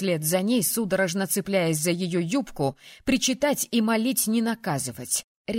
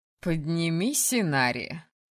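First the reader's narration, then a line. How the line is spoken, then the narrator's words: Mocking yet stern demand. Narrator (Russian): Насмешливо, но в то же время строго потребовала она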